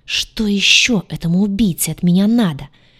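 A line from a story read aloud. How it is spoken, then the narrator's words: Angry hiss. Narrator (Russian): в сердцах прошипела она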